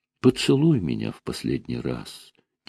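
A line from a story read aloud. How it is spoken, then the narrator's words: Quiet, in Greek. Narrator (Russian): тихо сказала по-гречески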